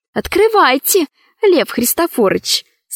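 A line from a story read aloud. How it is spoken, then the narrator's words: Feigned tender voice. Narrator (Russian): сказала Ксения притворно ласковым голосом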